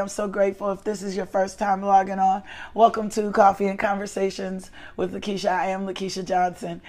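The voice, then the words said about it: Unusually deep, low voice. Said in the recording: “typically, my voice is not this deep. It is deep, but it's not this this low”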